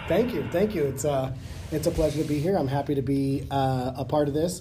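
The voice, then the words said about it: Voice strained by a cold. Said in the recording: “You'll have to excuse my voice a little bit. I'm fighting a little bit of a cold.”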